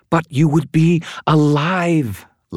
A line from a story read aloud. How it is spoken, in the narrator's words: Lashiel cried